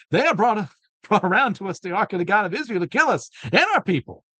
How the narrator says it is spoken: the people of Ekron cried out

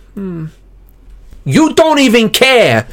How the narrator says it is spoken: I screamed

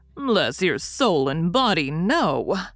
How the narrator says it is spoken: answered Wemmick very dryly

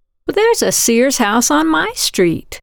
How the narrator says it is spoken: Caroline Meacham exclaimed

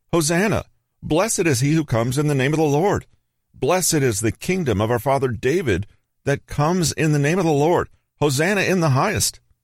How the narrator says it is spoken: Children shouting

